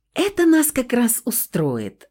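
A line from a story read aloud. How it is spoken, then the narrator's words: Joyful exclamation. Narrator (Russian): радостно воскликнула Стаська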